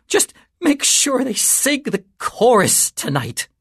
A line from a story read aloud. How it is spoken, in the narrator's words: Marcus wheezed